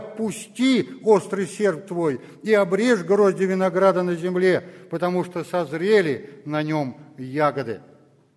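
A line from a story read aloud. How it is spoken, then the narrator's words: Great loud cry. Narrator (Russian): иной ангел, имеющий власть над огнем, с великим криком, воскликнул к имеющему острый серп, говоря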